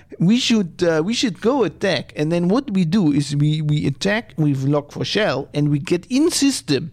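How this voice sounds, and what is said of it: Put-on Russian accent. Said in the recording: “I should do Russian accent.”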